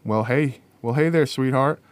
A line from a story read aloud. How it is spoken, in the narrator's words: Miss Leah called out